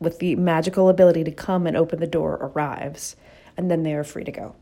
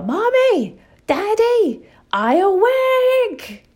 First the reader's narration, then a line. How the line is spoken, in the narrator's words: they yell